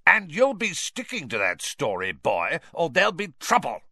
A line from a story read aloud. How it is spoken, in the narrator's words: spat Uncle Vernon